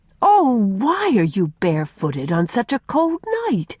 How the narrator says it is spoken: cried Faith

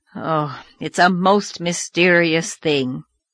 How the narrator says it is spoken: groaned Marilla

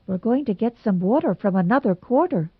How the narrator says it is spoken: said Anne rather anxiously

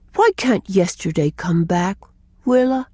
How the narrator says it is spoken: he looked up and asked me gravely

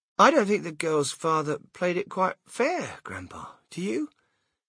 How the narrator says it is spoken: Charlie murmured

